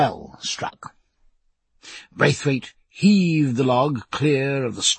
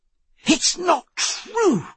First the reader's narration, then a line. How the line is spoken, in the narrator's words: cried Babington, his dignity all sunk in delight